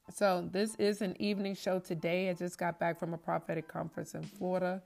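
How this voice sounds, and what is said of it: Voice sounds a little different, strained. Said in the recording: “my voice is a little bit different. We were doing a lot of screaming, groaning rather”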